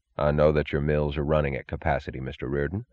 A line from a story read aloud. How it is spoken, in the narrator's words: he said